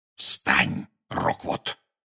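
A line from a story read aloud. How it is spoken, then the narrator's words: Whispered. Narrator (Russian): шепнул Гарри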